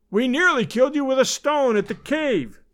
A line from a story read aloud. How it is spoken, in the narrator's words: cried